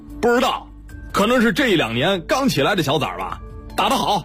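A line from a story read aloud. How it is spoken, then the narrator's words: Loud shouting. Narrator (Chinese): 一个光头大声嚷嚷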